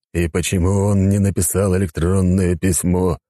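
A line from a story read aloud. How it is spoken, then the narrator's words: Grumbled. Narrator (Russian): пробурчал император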